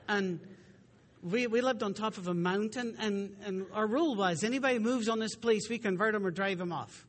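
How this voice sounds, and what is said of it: West Virginia accent. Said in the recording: “I lived in West Virginia for 8 years. That's why I got the accent.”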